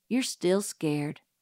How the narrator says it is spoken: murmured Dill patiently

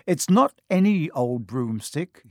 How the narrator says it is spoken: he said

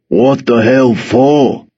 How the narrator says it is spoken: growled

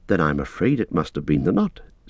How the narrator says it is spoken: said Frodo

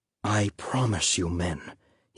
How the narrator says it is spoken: he said quietly, his voice almost a whisper

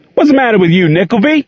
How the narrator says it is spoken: shouted the coach

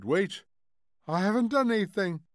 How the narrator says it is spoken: cried the old man, trembling

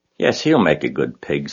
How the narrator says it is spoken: said Mr

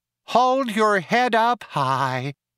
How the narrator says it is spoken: whined nasally

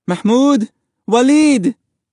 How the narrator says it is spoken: their mother cried

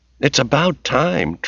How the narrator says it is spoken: Tracy said irritably

